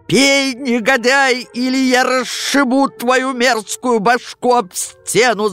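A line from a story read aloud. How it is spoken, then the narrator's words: Furious father shouting. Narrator (Russian): закричал неистовый отец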